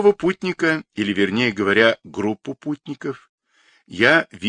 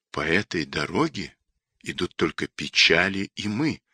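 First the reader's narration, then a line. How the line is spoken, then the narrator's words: Frightened whisper. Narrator (Russian): прошептал я испуганно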